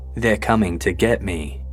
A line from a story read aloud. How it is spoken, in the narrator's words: In a frightened voice, whispered